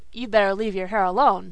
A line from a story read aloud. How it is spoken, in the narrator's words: said Dan gruffly